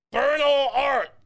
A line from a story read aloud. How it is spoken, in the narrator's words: you scream